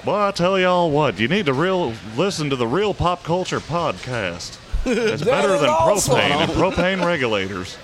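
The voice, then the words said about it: Imitates a cartoon character's Texan drawl. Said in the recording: “I'd be great a voice actor. I want to be Hank Hill.”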